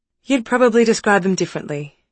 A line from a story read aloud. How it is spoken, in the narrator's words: she said, and her tone was defensive